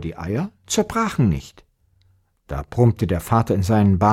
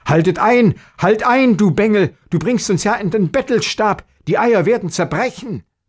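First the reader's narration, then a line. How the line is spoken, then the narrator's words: Father calls out, frightened. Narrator (German): dass der Vater erschrocken rief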